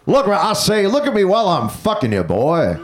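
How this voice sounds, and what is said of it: Foghorn Leghorn cartoon voice impression. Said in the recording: “I do a Foghorn Leghorn impression... This is my impression of Foghorn Leghorn as the United States government”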